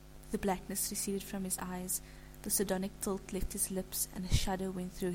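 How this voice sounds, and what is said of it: Usual voice. Nothing is said of it.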